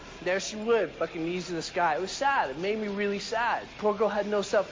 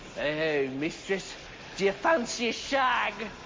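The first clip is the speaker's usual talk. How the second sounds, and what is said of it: Put-on English accent. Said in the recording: “put on some kind of stupid fucking accent like”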